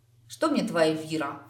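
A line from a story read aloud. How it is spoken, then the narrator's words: Snorting. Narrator (Russian): фыркнула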